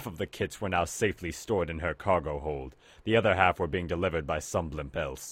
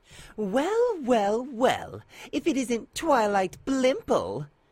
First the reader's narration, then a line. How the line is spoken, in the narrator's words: purred the huge airship